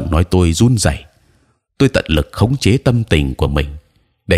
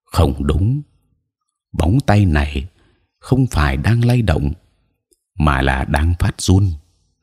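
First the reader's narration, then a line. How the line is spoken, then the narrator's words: Quiet voice. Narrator (Vietnamese): Đại thúc Âu Phục nhỏ giọng nói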